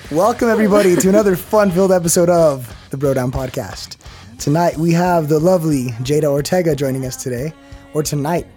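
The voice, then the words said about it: Hoarse, raspy voice. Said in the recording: “my voice is all fucked”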